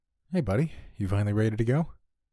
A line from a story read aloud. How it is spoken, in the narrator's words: he said, smiling